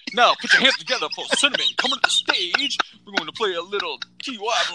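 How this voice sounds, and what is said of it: Funny late-night radio DJ voice. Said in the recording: “You're developing this funny radio voice ... It's like DJ ... comes out, like you're at the local radio station doing the 11 o'clock to 2 a.m. shift”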